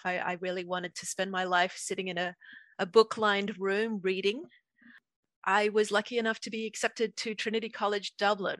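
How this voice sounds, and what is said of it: Australian accent. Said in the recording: “as you can probably hear from my accent. I grew up in Australia.”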